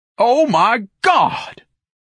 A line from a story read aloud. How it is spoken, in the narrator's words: Ignatius bellowed